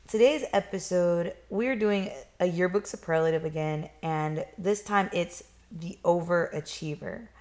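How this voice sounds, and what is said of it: Congested, nasal voice. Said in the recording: “excuse my voice. ... I am having some sinus issues, and so I may sound a little weird”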